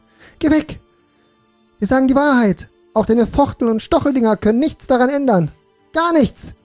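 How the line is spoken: Shouting at him. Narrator (German): schrie ihm entgegen

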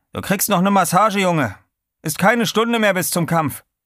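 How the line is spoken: Calling out. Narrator (German): rief

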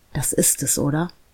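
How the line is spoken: Male whisper. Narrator (German): flüsterte er

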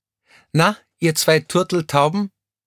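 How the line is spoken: Nearby call. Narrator (German): rief jemand in der Nähe

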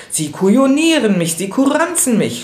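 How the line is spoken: Furious screaming. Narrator (German): schrie er im Jähzorn

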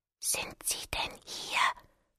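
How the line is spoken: Awed whisper. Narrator (German): flüsterte ehrfürchtig

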